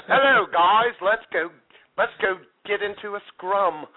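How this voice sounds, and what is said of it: Put-on Australian accent. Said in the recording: “What's with the Australian accent, though?”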